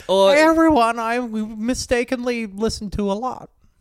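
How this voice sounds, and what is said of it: Impression of Jordan Peterson. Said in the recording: “Jordan Peterson in a video. ... That's a good impression. That's amazing. ... I think that's pretty good.”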